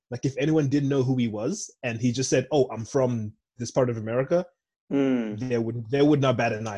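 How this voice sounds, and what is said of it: American accent. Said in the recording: “I'm Zimbabwean with a fucking American accent”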